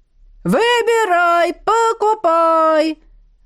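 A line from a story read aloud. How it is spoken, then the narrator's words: Sudden yelling woman. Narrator (Russian): Внезапно заорала какая-то тетка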